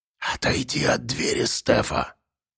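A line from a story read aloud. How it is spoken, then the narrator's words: Hissing whisper. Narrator (Russian): сказала баба Марфа свистящим шепотом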